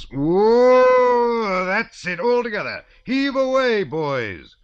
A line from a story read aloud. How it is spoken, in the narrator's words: 20 voices roared out at once